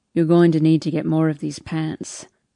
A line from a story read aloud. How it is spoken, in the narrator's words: His voice is quiet as he says